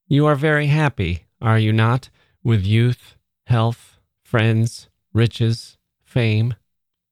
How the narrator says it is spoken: my visitor, without raising her eyes, said slowly

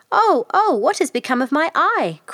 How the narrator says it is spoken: cried the old hag

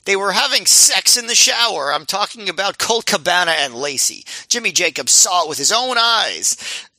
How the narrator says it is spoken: was yelling

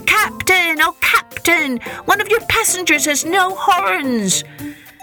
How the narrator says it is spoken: he cried out as loudly as he could

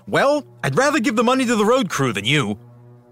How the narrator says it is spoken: DeFries snapped back

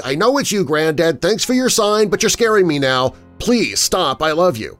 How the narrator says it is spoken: shouted out clearly

